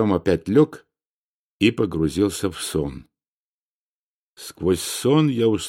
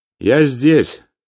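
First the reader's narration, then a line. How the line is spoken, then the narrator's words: Loud. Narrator (Russian): сказал я громко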